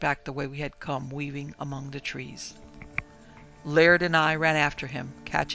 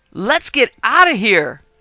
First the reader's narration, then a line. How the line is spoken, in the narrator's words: shouting harshly